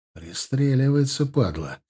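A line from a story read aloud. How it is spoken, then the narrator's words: Whispered under breath. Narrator (Russian): прошептал я себе под нос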